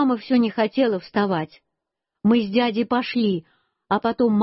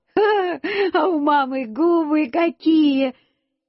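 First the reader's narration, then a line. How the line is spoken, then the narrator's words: Laughing. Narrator (Russian): Я засмеялся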